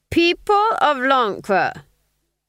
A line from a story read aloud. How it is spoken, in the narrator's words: he cried